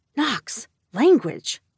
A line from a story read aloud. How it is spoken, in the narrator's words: I hissed